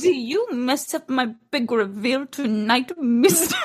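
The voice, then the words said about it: Vague accent mixed with Betty Boop. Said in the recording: “a sort of accent from nowhere combined with Betty Boop”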